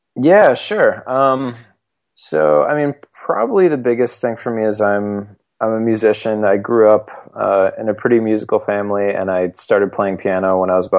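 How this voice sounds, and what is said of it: Slightly hoarse voice. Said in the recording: “if I sound a little hoarse. I'm a little bit sick today”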